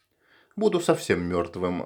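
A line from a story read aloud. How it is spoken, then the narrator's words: Sighed. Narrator (Russian): вздохнул Рой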